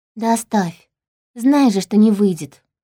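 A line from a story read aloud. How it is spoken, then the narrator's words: Sighing. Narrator (Russian): вздохнула я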